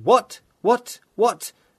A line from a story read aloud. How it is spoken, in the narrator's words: Mallowell shouted